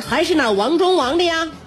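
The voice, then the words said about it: Heavy Henan accent. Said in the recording (Chinese): “带着很重的河南口音”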